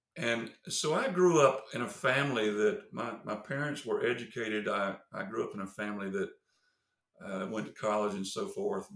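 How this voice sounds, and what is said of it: Southern US accent. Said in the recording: “you can probably tell by my accent that I'm Southern”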